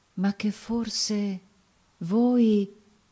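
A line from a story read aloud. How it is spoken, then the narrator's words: Murmur. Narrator (Italian): Il brigante lo guardò, fece un movimento col fucile, poi si ricompose, mormorando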